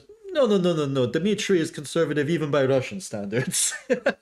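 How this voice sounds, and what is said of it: Put-on Russian accent. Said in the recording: “my racist Russian accent”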